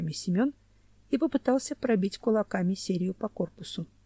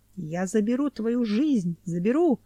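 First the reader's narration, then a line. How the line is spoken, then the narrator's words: Shout, then laughter. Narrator (Russian): крикнул Кунди и захохотал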